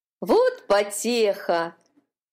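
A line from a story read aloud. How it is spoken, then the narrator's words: Mocking laughter. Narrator (Russian): смеялись над маленькой раковинкой ее соседи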